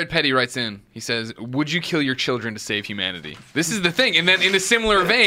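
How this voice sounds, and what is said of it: Usual voice. Nothing is said of it.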